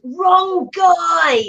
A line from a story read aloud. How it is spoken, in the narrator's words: Bane just yells